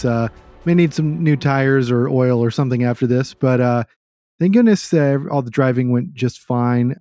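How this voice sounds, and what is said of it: Sick, ill-sounding voice. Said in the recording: “You might hear in my voice, we did pick up COVID along the way back, so I'm still fighting through that right now”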